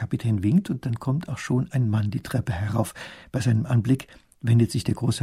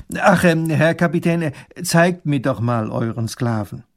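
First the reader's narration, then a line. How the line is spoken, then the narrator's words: Loud. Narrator (German): sagt er laut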